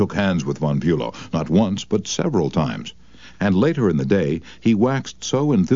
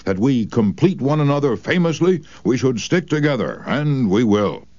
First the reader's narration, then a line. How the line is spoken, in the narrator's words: he exclaimed with enthusiasm